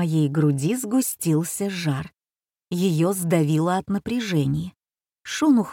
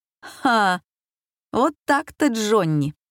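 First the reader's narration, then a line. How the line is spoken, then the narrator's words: Forced laugh. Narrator (Russian): Я заставила себя засмеяться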